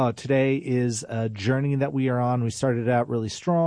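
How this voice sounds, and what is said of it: Usual voice. Nothing is said of it.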